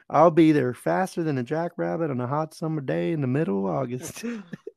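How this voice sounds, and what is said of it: Put-on Texas accent. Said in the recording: “a Texas accent.”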